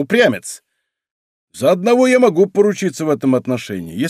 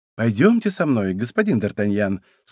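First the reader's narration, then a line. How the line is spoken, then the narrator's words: Sugary sweet voice. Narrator (Russian): сказал ему Мазарини самым сладким голосом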